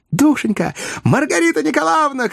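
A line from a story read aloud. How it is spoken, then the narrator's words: Shouting. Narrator (Russian): кричала Наташа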